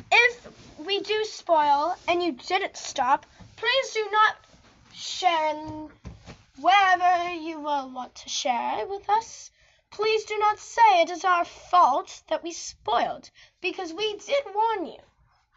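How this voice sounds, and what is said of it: Put-on British accent. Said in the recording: “Why are you talking with a British accent?”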